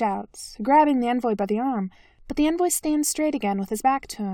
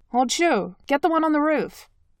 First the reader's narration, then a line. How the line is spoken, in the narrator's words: Zhang Lin barks